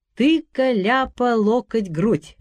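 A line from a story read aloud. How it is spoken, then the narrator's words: Ringing chant. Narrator (Russian): приговаривал Петька звонким голосом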